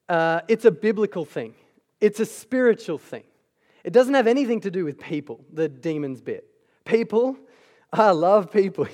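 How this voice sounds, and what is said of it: American accent. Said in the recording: “You can just hear the American accent.”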